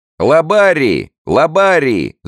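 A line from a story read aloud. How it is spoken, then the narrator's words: Shouting, choking with delight. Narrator (Russian): захлебываясь от восторга, кричал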